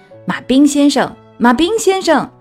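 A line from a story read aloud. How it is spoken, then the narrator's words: Shouting. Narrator (Chinese): 她大喊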